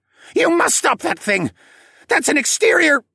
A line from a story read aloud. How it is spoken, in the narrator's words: he yelled